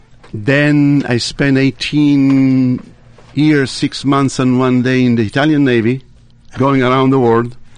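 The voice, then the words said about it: Italian Tuscan accent. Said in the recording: “it's not a Brooklyn accent ... it's a Tuscan accent”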